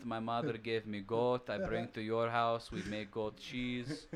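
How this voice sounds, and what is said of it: Put-on Polish accent, Russian-sounding. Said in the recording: “you have a good uh, interpretation of like a Russian accent. I really like it ... That was actually my Polish accent ... so similar”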